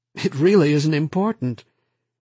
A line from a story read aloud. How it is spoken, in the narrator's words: Nearly giddy, almost laughing, he said again